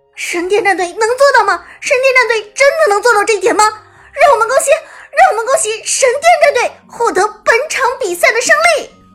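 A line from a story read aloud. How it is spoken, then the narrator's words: Ecstatic shouting, two voices. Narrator (Chinese): 喊到最后，剑南的声音和小冷的声音一同爆出来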